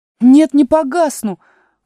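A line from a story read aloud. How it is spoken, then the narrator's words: Indignant shout. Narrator (Russian): возмущенно крикнула Алиса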